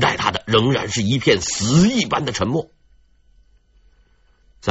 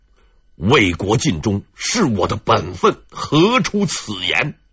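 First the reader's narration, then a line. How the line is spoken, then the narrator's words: Low, gratified voice. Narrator (Chinese): 孙穗欣慰的笑了，低声说了一句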